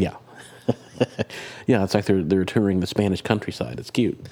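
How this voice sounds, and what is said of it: Usual voice. Nothing is said of it.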